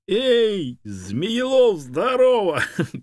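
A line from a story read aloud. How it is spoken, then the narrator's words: Shouted. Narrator (Russian): крикнула мне обезьяна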